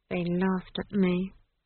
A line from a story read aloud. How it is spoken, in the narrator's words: Esk mumbled